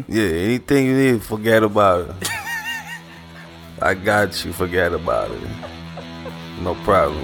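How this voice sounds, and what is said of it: Mobster impression voice. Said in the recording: “You about to do your mob voice?”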